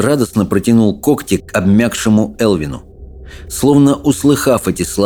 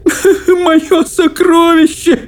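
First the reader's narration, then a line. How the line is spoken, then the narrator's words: Sobbing. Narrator (Russian): рыдал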